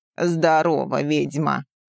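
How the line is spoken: Booming voice. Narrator (Russian): Прогудела она

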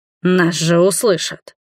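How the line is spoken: Growling man. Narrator (Russian): прорычал мужчина

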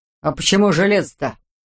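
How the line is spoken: Offended question. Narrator (Russian): обиженно спросил оруженосец

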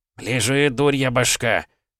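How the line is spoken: Grumbling. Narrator (Russian): проворчал фельдшер

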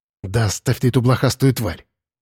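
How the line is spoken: Angry hiss. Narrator (Russian): сердито шикнул он

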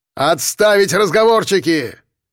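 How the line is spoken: Barked command. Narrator (Russian): гаркнул лейтенант

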